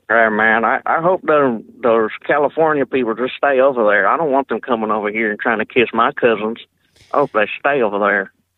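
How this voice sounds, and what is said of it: Put-on Southern US accent. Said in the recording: “That's a pretty good southern accent you got there ... I've been practicing on it ... do you use your southern accent when you prank call people”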